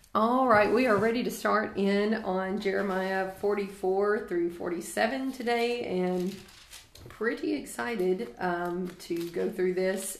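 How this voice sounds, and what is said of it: Strained, struggling voice. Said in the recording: “my voice is struggling today”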